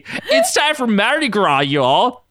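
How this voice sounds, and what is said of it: Horrible put-on Southern accent. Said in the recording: “said with a horrible southern accent into his camera”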